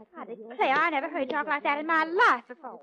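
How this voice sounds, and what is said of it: Phony put-on Southern American accent. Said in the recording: “that southern accent of yours is as phony”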